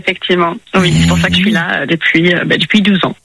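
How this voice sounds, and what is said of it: Slight English accent speaking French. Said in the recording (French): “Que nous vaut ce petit accent? ... Je suis anglaise.”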